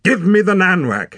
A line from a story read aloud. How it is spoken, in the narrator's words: cried